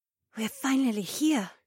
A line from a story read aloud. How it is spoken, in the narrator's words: Haywan whispered